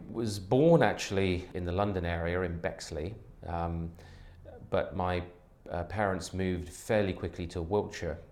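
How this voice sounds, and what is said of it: British English accent. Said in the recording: “a native of Britain ... you have a certain accent there”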